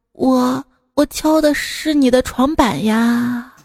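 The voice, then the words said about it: Childlike, tender voice. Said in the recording (Chinese): “稚嫩的声音说”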